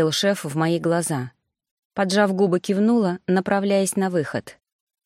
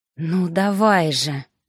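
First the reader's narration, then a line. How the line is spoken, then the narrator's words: Silent inner growl. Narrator (Russian): рычала я мысленно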